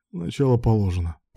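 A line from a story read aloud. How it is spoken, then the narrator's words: Hoarse croak. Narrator (Russian): прохрипел Руслан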